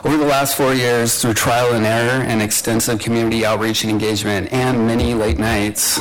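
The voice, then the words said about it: Strained, worn voice. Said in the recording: “You have to pardon my voice. I've been talking a lot over the last 2 weeks”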